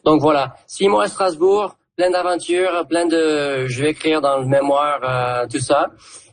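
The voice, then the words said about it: Southern French accent. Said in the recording (French): “l'accent du coin ... j'entendais un accent du sud”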